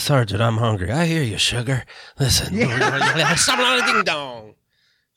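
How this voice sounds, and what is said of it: Put-on Southern accent. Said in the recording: “Do you think he did a Southern accent?”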